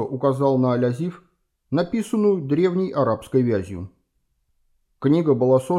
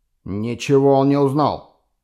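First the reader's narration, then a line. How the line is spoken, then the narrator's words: Growled. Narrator (Russian): зарычал Кемпфер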